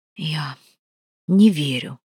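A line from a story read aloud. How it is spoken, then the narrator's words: Whispered. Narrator (Russian): прошептала Провена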